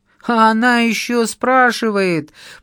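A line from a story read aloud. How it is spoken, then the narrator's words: Fearsome woman roaring. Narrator (Russian): проревела страшная незнакомка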